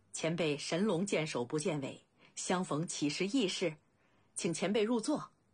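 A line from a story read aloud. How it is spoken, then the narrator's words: Laughing. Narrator (Chinese): 未央笑道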